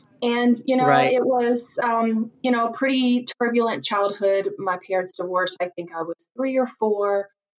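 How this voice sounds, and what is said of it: Virginia country accent. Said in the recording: “just a poor country girl from Virginia. You can probably tell from my accent.”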